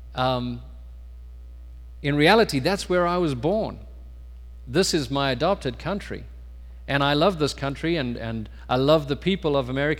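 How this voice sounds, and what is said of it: South African accent. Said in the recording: “I may not have a piece of paper saying I'm a South African citizen, but I'll always probably speak with a funny accent”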